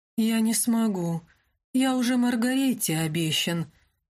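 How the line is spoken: Sleepy mumble. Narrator (Russian): сонно пробормотал Винсан

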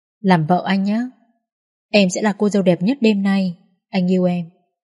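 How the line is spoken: Soft, deep, warm. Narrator (Vietnamese): Khẽ cất giọng trầm ấm, anh nói

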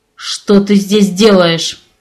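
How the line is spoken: Through gritted teeth. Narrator (Russian): процедил муж сквозь зубы

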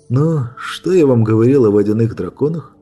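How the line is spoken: Sighing. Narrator (Russian): Вздохнул Брайан

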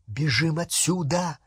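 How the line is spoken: Whispering. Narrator (Russian): прошептала Гермиона

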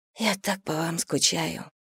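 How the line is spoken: Whisper. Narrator (Russian): прошептала

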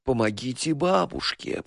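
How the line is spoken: Squeaky, unpleasant moan. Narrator (Russian): простонала она писклявым неприятным голосом

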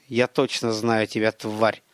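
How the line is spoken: Hissed. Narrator (Russian): прошипел Гарин

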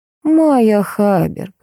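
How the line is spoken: Sweet ingratiating voice. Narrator (Russian): сладким вкрадчивым голосом произнес тень

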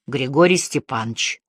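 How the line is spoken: Deep bass answer. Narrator (Russian): не выходя окончательно из задумчивости, ответила басом

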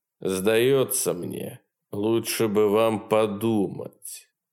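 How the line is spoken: Sinister silky tone. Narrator (Russian): проговорил полковник таким зловеще вкрадчивым тоном

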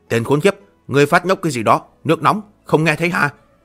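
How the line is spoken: Angry. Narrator (Vietnamese): Miêu Nghị vẻ mặt tức giận nói

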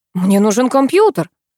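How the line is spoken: Joyful exclamation. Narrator (Russian): радостно воскликнул Алекс

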